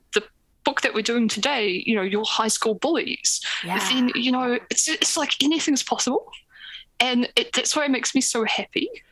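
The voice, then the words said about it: New Zealand accent. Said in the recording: “the accent, ... is coming to us from basically my favorite place in the world. She is in New Zealand.”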